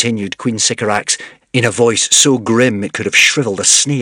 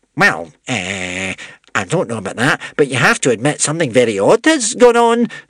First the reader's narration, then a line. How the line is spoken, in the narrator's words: spluttered the witch-smeller, quailing